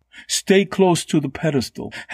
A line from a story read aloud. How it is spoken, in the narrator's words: Hanta cried, as her calves flexed to remain upright on the wildly swaying surface